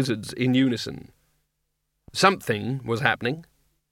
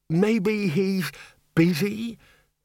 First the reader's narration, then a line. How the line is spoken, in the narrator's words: the bursar quavered